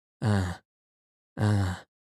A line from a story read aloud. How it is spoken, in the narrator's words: he sighed deeply